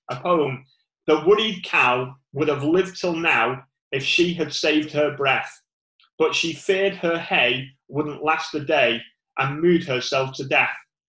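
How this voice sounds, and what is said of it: Northern English accent. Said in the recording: “I always say poem wrong. Forgive my northern accent.”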